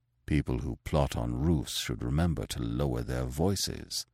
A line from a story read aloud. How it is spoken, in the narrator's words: he muttered